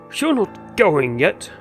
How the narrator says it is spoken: he cried

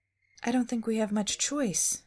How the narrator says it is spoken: Daphne said, touching her damp hair anxiously

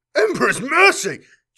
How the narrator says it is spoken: choked

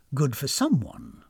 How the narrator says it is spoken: muttered distrustfully

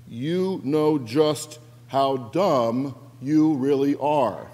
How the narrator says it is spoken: paused and spoke each word slowly for emphasis

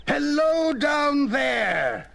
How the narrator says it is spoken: I shouted down

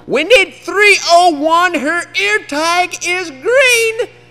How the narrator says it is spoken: yell it out louder and sound kinda mean

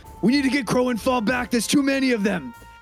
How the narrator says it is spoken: Karz is going to yell to the others

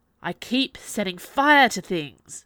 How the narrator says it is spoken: Jules growled

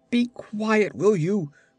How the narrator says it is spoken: cried the frantic magician

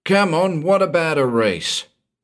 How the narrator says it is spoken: yelled out Bodley

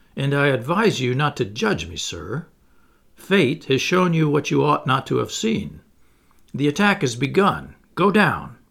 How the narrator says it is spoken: he replied coldly

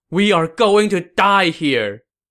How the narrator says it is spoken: cried

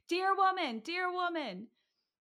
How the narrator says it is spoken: The boy began screaming at the top of his lungs

